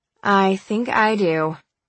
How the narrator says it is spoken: I said

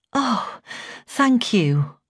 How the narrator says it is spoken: I sighed with relief

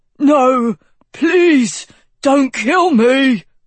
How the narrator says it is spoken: he choked

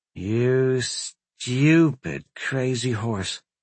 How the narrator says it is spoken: Corin muttered

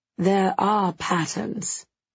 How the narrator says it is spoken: Jules says eventually, very slowly, like he's trying the idea out

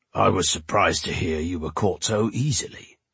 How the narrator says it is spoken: he remarked, his voice deep and rumbling

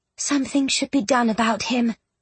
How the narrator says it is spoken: Jane had quietly muttered

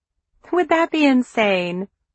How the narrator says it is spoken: Glory asked, laughing at her own idea

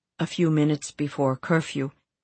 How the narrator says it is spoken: Jan said

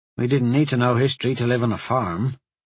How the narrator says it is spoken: Corin grumbled

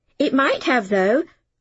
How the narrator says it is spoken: said excitedly

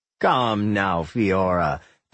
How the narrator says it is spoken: Alfred chuckled

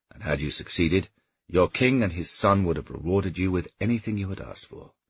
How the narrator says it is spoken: he said evenly

